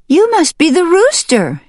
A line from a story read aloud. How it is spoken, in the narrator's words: she cried